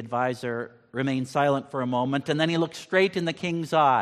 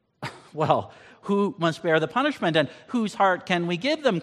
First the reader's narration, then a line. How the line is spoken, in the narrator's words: cried the king